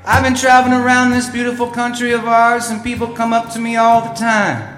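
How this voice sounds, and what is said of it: Drawl, mixed northern-southern small-town accent. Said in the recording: “how do you get that drawl that you do? It's kind of a mix between a small town, big, kind of a northerly southern.”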